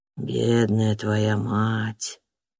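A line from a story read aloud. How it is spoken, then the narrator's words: Hoarse sergeant. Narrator (Russian): хрипло сказал сержант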